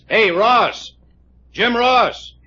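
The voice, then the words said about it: Yelling loudly. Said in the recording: “You yelling at me? ... Yes, I'm yelling at you.”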